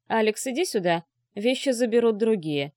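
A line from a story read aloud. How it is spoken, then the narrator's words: Irritated bark. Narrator (Russian): раздраженно гаркнул Дюбуа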